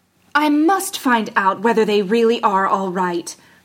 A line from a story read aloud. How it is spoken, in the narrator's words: cried